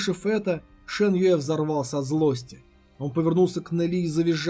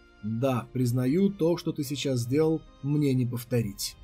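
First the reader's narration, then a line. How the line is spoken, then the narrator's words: Quiet with a smirk. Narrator (Russian): Нели усмехнулся и тихо сказал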